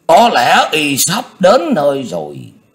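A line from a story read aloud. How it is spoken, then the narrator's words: Suddenly stern. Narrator (Vietnamese): Dị Tố bỗng nghiêm nghị nói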